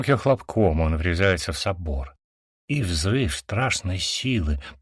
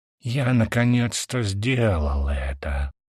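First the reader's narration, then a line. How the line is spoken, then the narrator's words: Whisper. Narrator (Russian): шепчу, медленно опускаясь вниз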